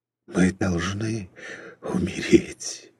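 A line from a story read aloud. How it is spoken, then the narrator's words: Weak whisper. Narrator (Russian): бессильно прошептал Иоф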